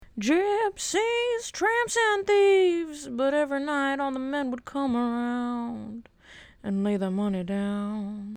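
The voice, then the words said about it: Sung imitation of another person's voice. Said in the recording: “that was my Cher impression ... I'm like the bootlegged version ... by singing that song”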